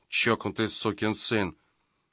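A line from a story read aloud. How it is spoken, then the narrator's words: Muttering. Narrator (Russian): бормоча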